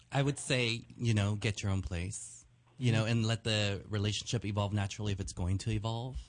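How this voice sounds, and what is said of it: Soothing radio voice. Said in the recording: “his voice is very soothing ... you got a great radio voice.”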